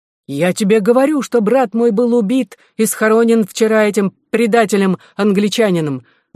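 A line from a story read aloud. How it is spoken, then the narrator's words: Exclaiming. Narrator (Russian): воскликнул Эдуард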